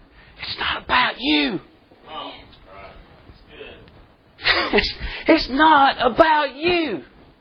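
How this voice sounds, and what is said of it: Whispering. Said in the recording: “I'm going to whisper.”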